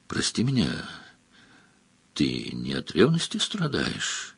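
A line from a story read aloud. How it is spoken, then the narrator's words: Quiet. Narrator (Russian): тихо сказала Маргелена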